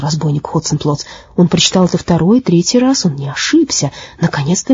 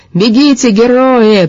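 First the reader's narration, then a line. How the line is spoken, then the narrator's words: Shouting after them. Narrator (Russian): прокричал он им вслед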